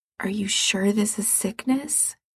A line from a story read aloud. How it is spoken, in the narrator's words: Gerard says quietly